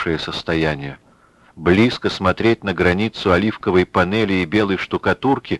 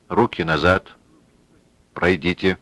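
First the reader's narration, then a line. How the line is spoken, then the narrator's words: Very quiet, curt. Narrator (Russian): очень тихо обронил он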